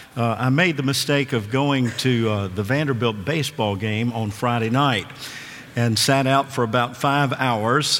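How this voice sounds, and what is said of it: Ill-sounding, rough voice. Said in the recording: “apologize for my voice. I know I sound a little ill,”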